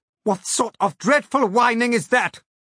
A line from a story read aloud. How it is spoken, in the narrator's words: shouted